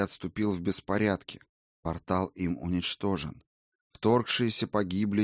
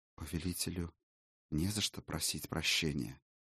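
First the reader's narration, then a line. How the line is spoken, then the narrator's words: Quiet reply, dark elf. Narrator (Russian): тихо отозвался темный эльф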